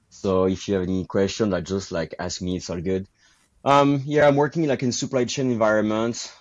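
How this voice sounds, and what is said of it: French accent in English. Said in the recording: “my accent ... I'm French from Bordeaux”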